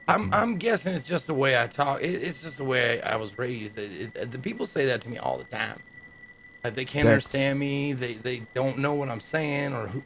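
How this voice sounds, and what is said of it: Speaks in an odd put-on accent. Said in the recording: “Why are you talking like that? ... My accent, is it hard to understand?”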